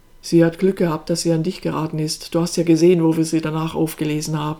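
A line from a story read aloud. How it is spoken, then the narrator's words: Dry remark. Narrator (German): ergänzte Enes trocken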